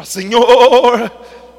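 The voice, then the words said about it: Exaggerated preacher voice. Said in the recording (Portuguese): “orar com voz de pregador. Você já viu voz de pregador?... por que, que não fala direito?”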